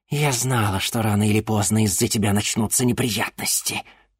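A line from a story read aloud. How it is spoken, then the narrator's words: Hissed. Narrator (Russian): прошипела она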